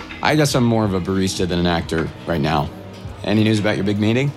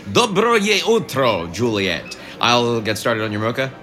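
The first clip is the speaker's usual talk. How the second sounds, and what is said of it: Put-on Russian accent. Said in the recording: “what's happening with the accent? Is that Russian?”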